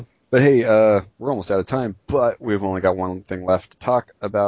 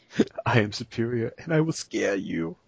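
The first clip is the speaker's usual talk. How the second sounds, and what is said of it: Put-on accent, imitating a character. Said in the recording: “I have an accent.”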